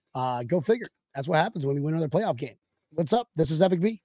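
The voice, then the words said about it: Hoarse, strained voice. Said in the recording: “I'm losing my voice again ... if you just keep on screaming, this is going to be your voice”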